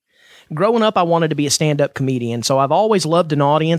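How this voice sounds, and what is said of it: Southern American accent. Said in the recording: “the southern dialect that you're listening to”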